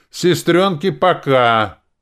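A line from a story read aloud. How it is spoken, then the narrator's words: Loud shout. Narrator (Russian): громко крикнул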